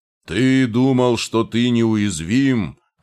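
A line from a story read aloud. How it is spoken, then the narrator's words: Growling, voice breaking emotionally. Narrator (Russian): рычал ростовщик, его голос срывался от эмоций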